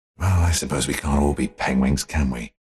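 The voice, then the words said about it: Deathly serious voice. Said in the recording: “In the most deathly serious voice.”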